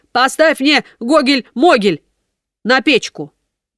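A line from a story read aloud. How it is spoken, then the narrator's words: Shouted. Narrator (Russian): Он крикнул ей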